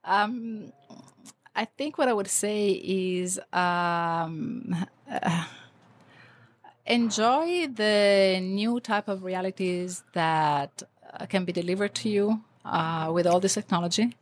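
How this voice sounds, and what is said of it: Sick, congested voice. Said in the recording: “this is not my real voice. I have a really bad cold.”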